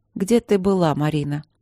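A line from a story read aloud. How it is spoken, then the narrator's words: Tired question. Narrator (Russian): спросила она устало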